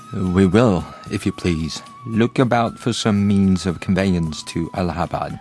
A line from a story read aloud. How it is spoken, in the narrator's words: Fogg quietly